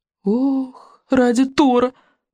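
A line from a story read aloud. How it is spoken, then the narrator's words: Groaned. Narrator (Russian): простонал Рубинок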